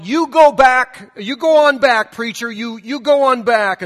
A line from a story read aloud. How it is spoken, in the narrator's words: an old lady in the back, but she had a really strong voice, and she cried out, and she yelled